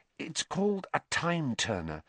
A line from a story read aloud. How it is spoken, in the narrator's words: Hermione whispered